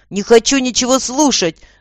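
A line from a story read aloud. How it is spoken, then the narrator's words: Boy shouting. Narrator (Russian): закричал мальчик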